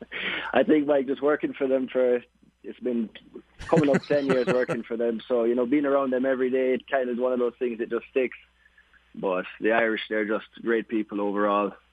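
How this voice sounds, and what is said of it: Irish-accented English. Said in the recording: “Jamaican, but you talk with that Irish accent.”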